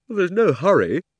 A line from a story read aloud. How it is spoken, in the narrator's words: said Diggory, with a huge yawn